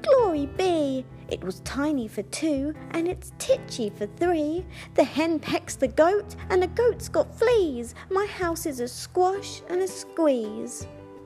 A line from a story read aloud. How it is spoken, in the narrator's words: The little old lady cried